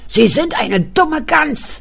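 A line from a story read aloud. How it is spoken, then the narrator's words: Shouting. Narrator (German): schrie die Frau Kraus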